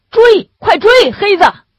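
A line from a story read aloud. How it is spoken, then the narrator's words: Shouting guard. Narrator (Chinese): 那个看守拦住狗喊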